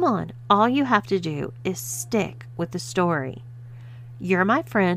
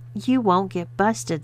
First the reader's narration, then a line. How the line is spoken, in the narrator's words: sighed Haley